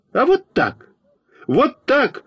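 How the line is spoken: Indignant shout. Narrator (Russian): возмущенно закричал я на Фокину

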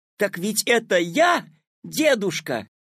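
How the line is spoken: Joyful shout. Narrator (Russian): обрадованно закричал Петя

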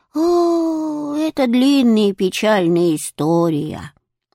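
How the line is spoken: Old woman sighing. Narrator (Russian): вздохнула старушка

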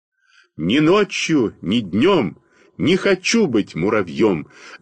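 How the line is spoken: Loud singing. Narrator (Russian): запел я громко во весь голос

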